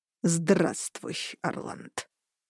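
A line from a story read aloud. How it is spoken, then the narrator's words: Through teeth. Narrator (Russian): процедил Дагаркун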